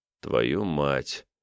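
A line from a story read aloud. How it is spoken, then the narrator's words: Quiet swearing. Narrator (Russian): тихо выматерился я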